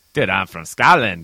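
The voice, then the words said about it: Poor fake Scottish accent. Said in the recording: “My kind of fake Scottish accent. ... fake is a good word for it.”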